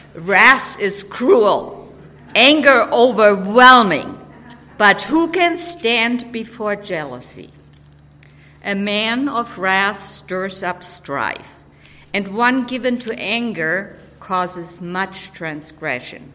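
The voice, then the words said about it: Reading in an angry voice. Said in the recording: “read in an angry voice”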